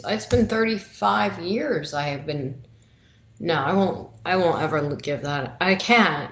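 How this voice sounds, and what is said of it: New York accent. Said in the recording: “that New York accent”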